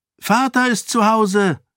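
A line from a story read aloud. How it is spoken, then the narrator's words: Girl calling out. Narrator (German): rief eine Mädchenstimme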